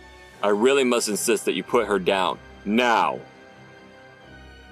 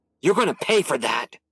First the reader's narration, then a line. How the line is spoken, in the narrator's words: Sleek snarled